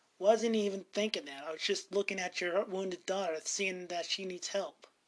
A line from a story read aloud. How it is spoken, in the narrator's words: Ben is this snarl, gives him such a snarl